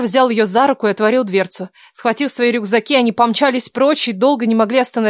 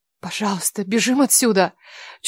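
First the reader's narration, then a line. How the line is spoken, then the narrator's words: Breathless whisper. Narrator (Russian): Чуть слышно выдохнула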